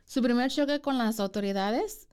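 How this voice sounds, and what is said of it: Mexican Chihuahua-style accent. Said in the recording (Spanish): “me escuché de Chihuahua ... Tienes que encontrar tu acento mexicano”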